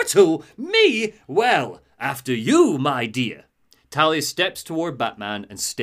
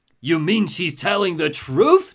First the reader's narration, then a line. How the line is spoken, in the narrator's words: Joker laughs